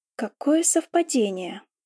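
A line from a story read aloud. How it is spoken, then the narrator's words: Drawn-out gentle lullaby tone. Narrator (Russian): протянула я ласковым голосом, словно колыбельная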